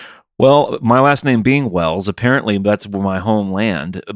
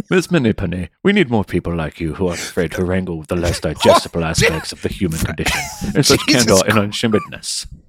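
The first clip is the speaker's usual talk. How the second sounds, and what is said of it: Put-on Welsh accent. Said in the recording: “if you'd have read that in a Welsh accent”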